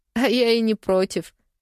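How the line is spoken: Laughing chuckle. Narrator (Russian): хохотнула она

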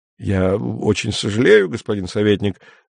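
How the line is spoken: Mumbling. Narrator (Russian): забормотал Элизауэр

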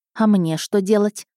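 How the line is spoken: Plain. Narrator (Russian): спросила

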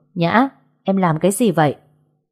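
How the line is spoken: Slightly angry, calm. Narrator (Vietnamese): có chút tức giận, nhưng gương mặt vẫn tỏ ra rất điềm đạm

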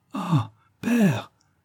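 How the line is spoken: Exclaiming. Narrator (French): s'écria

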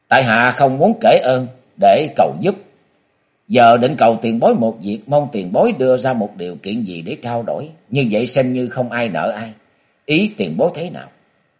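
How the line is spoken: Extremely cold. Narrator (Vietnamese): Châu Thành mặt lạnh lùng đến cực độ

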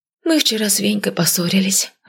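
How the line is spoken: Sighing. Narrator (Russian): вздохнула

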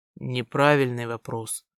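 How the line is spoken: Predatory smirking snort. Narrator (Russian): хмыкнул Дамиан, хищно улыбнувшись

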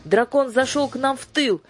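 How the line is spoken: Angel's alarmed shout. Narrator (Russian): закричал ангел Василиус

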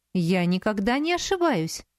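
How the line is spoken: Indignant. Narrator (Russian): возмущенно произнесла она

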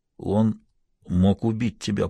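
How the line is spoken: Hoarse rasp. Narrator (Russian): прохрипел Хэммонд

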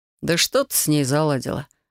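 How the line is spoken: Irritated reply. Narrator (Russian): отозвался Колька раздраженно

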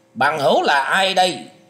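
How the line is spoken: Loud shout. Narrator (Vietnamese): lão ta to tiếng quát lên rằng

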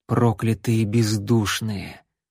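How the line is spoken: Through gritted teeth. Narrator (Russian): процедил Гауст

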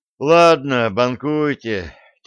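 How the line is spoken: Heavy sigh. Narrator (Russian): тяжко вздохнул Блад

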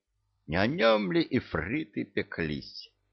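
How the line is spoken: Soft gasp. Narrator (Russian): Веселый Али тихо ахнул

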